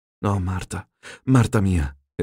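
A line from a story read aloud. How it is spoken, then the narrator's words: Exclaimed. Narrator (Italian): esclamò Rocco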